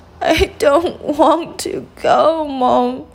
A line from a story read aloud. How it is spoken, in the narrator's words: sobbed the little princess